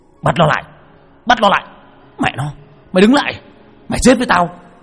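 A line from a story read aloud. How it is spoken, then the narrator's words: Crowd yelling. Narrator (Vietnamese): hàng loạt tiếng gào thét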